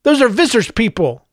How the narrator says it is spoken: Joseph cried

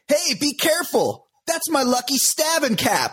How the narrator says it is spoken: OJ was heard to exclaim

